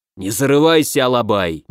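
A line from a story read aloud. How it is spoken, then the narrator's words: Displeased growl, tiger. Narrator (Russian): недовольно рыкнул тигр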